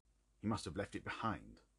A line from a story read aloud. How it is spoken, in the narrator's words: muttered my companion